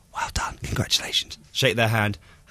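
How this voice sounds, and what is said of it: Whispered voice. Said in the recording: “Why did you whisper?”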